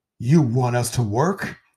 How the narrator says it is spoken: They cried

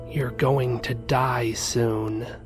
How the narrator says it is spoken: whispered

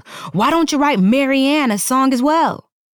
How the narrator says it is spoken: he yelled

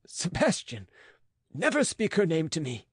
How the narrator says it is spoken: cried the physician

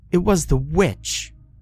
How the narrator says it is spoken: Laura spat

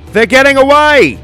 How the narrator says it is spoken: shouted one of the officers

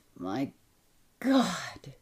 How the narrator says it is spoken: he cried

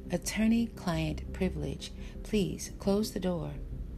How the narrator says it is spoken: said calmly

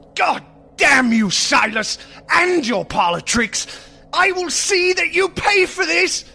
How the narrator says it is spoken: Spattered with blood, Marcy fled from the room screaming

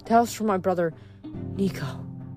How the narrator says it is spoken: Hazel gasped

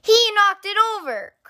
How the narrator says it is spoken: cried sister

